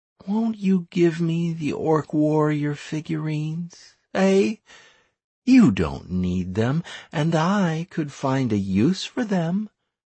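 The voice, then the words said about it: Sweet, syrupy female character voice. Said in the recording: “in a syrupy voice”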